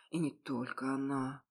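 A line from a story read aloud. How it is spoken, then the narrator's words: Muttering aloud. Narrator (Russian): продолжал бормотать вслух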